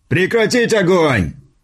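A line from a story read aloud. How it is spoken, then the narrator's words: Shouted out. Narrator (Russian): выкрикнул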